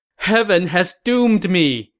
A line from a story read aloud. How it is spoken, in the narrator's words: Liu Shan said as he broke into a loud wail